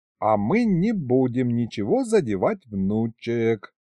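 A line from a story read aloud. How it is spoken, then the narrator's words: Old man's focused drawl. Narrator (Russian): Сосредоточенно протянул дед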